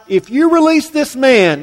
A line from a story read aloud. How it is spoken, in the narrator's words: the Jews cried out